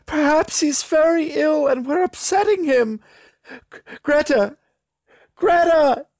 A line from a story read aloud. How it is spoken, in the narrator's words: she yelled